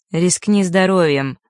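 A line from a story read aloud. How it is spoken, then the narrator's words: Grim chuckle. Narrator (Russian): мрачно усмехнулся тот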